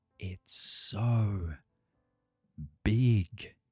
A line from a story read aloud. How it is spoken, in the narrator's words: whispered Stronglegs